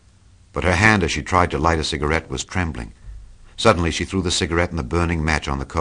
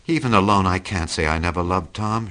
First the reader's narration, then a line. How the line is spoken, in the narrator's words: admitted in a pitiful voice